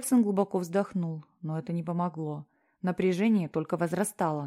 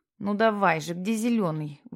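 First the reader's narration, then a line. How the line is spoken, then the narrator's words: Nervous grumbling. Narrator (Russian): ворчал Питер нервно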